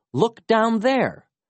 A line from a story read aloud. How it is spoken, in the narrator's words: cried Felix